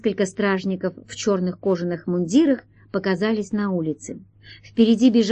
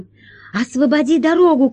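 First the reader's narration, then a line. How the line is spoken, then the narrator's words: Shout. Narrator (Russian): кричала Алиса блохобою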